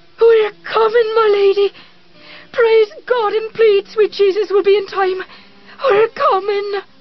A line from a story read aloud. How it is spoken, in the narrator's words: She shrieked